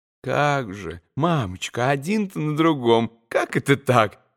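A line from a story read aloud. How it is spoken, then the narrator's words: Gentle, anxious babbling. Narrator (Russian): Хоть и ласково, но, опасаясь немного за мамочку, пролепетал штабс-капитан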